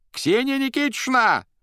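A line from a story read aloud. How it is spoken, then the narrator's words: Shrill shout. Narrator (Russian): пронзительно закричал он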